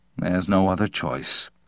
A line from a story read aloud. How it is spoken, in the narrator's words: he murmured